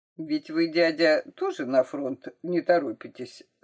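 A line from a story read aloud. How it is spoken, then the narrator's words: Plain. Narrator (Russian): сказал Саша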